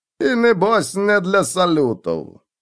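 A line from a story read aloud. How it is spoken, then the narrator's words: Gloomy remark. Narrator (Russian): мрачно заметил Малакай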